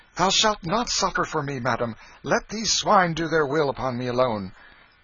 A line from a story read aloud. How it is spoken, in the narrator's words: Canty, exclaiming